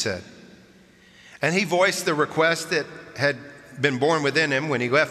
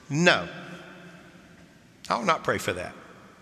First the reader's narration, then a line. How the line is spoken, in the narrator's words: firmly said